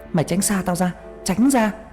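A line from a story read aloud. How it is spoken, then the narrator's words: Screamed. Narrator (Vietnamese): tôi hét lên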